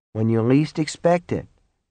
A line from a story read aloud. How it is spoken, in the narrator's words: Norman murmured